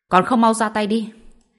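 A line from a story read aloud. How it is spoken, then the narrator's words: Loud shout. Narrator (Vietnamese): Tần Thù bèn hét lớn về phía Lương Minh Nguyệt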